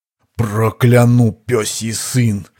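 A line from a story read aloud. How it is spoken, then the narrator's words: Barely forced out. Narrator (Russian): еле выдавил кузнец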